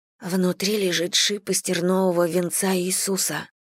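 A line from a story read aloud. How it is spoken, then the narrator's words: Whisper. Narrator (Russian): шепнула Слойна младшей сестре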